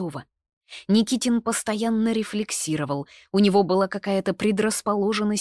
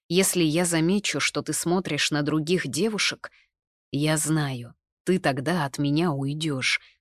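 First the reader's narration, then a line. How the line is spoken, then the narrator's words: Plain. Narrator (Russian): сказал он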